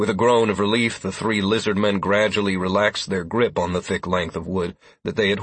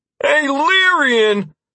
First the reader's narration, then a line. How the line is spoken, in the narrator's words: He called out